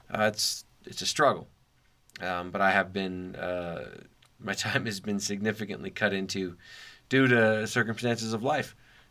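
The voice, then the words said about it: Slightly strained, tired voice. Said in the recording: “my voice is probably a little strained ... my voice might sound a little bad”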